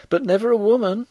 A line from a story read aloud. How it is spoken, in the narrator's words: cried the girl